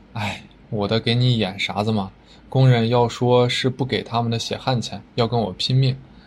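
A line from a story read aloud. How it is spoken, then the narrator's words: Sighing. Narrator (Chinese): 新疆叹了一口气说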